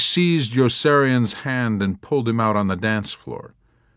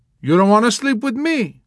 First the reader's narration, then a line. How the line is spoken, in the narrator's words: she exclaimed with surprise